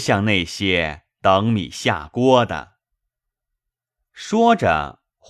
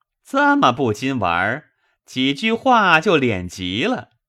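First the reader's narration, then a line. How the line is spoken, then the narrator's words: Laughing, teasing. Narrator (Chinese): 李十二对着笑说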